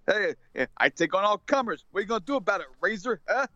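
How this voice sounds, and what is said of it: Put-on New Jersey tough-guy accent. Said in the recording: “doing the Vinny Vegas Jersey accent or Joysy accent”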